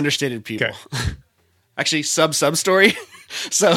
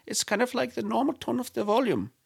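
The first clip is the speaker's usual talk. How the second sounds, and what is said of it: Quiet Icelandic accent, rising sentence ends. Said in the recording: “they're always very talking like this, like very, very kind of quietly and very kind of up at the end of the sentences ... That's my Icelandic.”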